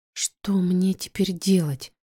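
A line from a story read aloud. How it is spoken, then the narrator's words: Quiet question. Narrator (Russian): Спрашиваю я тихо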